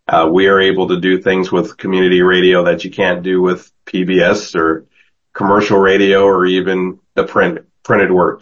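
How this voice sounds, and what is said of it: Worn-out, fading voice. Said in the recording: “my voice is going and it's getting late”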